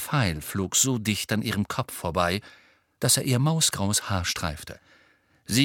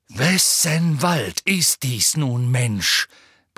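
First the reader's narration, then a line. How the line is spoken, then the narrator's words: Roared. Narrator (German): brüllte Bane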